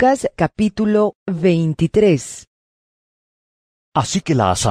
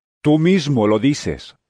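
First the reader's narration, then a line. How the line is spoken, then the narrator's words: Plain. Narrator (Spanish): respondió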